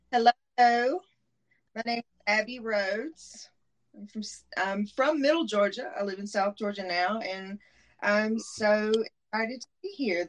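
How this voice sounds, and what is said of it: Southern American accent. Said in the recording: “that Southern accent... the sexy Southern Belle accent”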